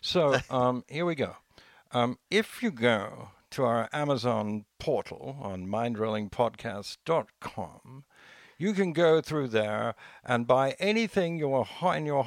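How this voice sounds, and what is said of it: Put-on English accent. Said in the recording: “ads work better if they're in an English accent. So I'm going to do, being English.”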